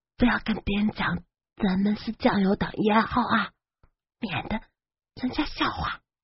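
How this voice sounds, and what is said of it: Quiet, hushed speech. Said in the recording (Chinese): “小声”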